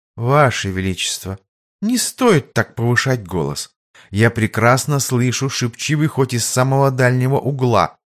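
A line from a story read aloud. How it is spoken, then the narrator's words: Calm rebuke. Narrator (Russian): совершенно спокойно осадила молодого короля Лиза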